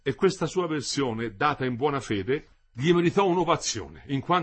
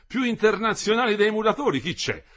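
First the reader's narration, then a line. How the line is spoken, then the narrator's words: Shouted. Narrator (Italian): si gridava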